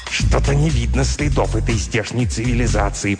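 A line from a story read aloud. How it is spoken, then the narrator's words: Hissed. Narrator (Russian): прошипел, наконец, Пвгдрк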